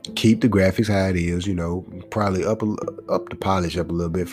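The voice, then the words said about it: Slightly congested voice. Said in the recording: “my voice is a little bit off, man, because I'm a little congested”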